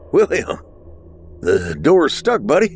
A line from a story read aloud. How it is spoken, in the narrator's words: Matthew said with a laugh